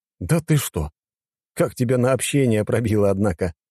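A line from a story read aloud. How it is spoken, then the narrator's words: Chuckling. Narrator (Russian): хохотнул я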